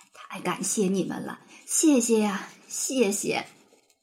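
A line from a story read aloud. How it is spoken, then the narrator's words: Old man, hoarse, trembling. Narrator (Chinese): 拄着拐杖的爷爷颤颤巍巍，嘶哑着声音不停地说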